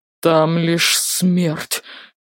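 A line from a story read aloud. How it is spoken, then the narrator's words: Half-mad whisper. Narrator (Russian): Полубезумным голосом прошептал он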